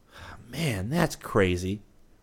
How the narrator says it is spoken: he muttered

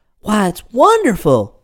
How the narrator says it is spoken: said Twinkle, who had listened eagerly

